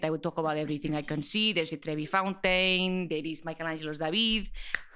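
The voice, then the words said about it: Put-on Spanish accent. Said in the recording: “this weird child who would only speak in a Spanish accent ... I would read the menu in the accent.”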